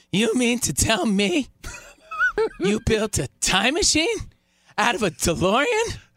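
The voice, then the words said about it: Imitates another person's voice. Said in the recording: “You want my Michael J. Fox impression ... Not bad. Hey, not very bad. ... Good. Very good. ... Not great.”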